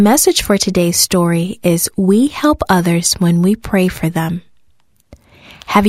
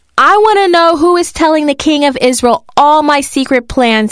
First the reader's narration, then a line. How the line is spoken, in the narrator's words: he shouted